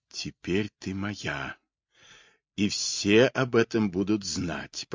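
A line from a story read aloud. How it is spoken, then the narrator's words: Whispered. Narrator (Russian): прошептал голос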